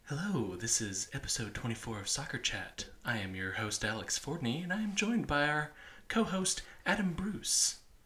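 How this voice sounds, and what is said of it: NPR-style radio announcer voice. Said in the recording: “I have tried my intro voice ... That's the NPR voice.”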